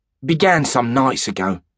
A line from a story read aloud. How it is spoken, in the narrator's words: said the shepherd